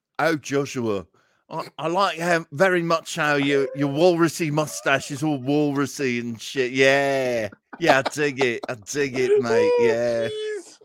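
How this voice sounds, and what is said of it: Put-on British Cockney accent. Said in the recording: “that was pretty good, man ... Speaks British Cockney.”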